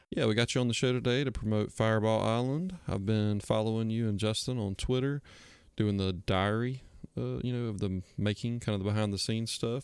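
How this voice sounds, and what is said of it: South Georgia American accent. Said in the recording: “I get Georgia from it. ... We're very South Georgia. ... who's from Georgia near the Alabama border. And I can hear the same accent.”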